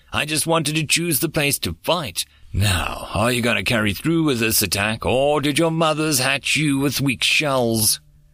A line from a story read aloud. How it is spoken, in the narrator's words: The warrior bellowed back in rage